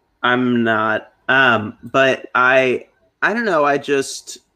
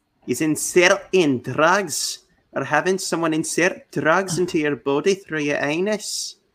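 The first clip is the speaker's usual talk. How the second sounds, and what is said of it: Put-on Scottish or Irish accent. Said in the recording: “your accents are awesome ... are you just naturally good at accents, or are you part Scottish, Irish”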